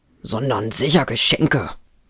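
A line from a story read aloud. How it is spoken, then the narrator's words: Embarrassed grumble. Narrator (German): brummte Ruprecht, der ganz rot geworden war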